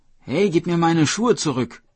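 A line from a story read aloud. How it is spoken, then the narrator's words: Calling out. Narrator (German): rief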